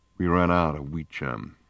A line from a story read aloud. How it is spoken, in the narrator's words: said Wonko evenly